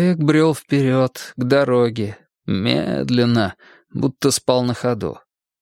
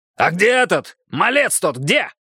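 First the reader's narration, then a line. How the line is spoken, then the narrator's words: Shouted. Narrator (Russian): крикнул Борман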